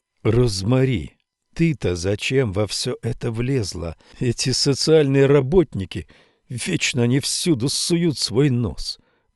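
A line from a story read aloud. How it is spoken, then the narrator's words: Muttered undertone. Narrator (Russian): пробормотала вполголоса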